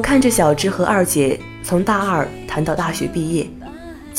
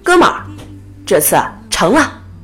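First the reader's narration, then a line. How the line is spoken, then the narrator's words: Excited loud shout. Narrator (Chinese): 我兴奋地 大吼一声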